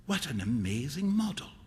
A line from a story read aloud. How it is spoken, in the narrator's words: whispered Huey